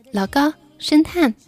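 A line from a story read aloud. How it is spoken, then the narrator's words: Shouting. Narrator (Chinese): 中年老板大喊了一声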